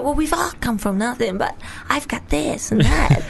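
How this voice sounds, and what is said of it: Good impression of a woman. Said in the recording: “Do you like that impression? ... That's a good one, yeah.”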